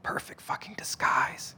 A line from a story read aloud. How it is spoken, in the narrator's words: Martin whispered